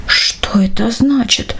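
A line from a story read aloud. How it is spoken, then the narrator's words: Whisper. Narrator (Russian): прошептал он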